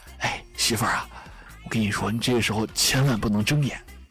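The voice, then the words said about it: Whispered, quiet voice. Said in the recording (Chinese): “小声说啊”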